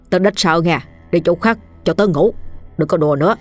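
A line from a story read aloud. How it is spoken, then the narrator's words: Soft irritable snap. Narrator (Vietnamese): chú gắt khẽ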